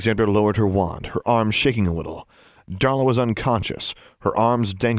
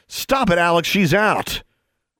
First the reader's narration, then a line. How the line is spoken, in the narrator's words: She screamed